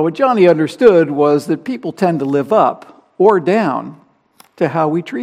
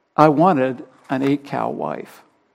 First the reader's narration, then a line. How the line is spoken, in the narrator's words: he finished softly